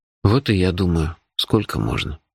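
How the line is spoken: Gloomy agreement. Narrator (Russian): мрачно согласился

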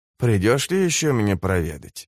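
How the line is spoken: Strange, soft, defenseless. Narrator (Russian): Она задала этот вопрос как-то странно, мягко и безоружно

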